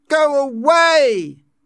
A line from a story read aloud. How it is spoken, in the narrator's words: he shouted furiously